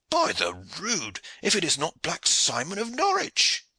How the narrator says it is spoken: cried Aylward

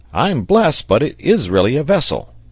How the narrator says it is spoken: exclaimed, in a voice which did not express any great amount of satisfaction

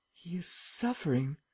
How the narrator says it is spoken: muttered Valdemar

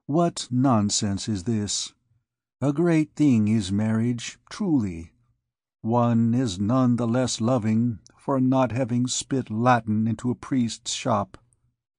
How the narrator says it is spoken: resumed Phoebus tenderly

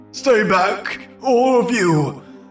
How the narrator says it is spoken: I screamed, my voice becoming hoarse

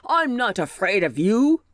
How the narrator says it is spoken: growled the bear

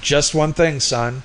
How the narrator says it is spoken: he shouted over the babble

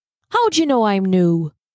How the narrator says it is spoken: The constable chuckled

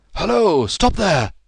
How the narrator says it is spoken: he shouted

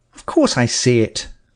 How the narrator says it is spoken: I said sharply

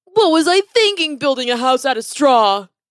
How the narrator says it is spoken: He cried out

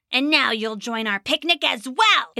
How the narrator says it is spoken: It snarled

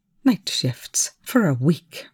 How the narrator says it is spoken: Rush hissed

